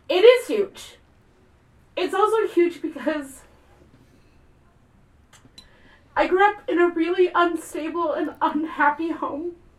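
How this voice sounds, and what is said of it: Emotional, close to crying. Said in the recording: “Oh, now I'm going to get emotional. I did not expect to cry.”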